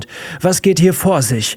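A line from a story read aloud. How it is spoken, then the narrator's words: Shouting across classroom. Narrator (German): schrie Miss Thatcher durch den Klassenraum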